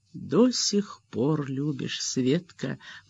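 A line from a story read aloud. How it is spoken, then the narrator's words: Sad maid's voice. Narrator (Russian): грустно сказала горничная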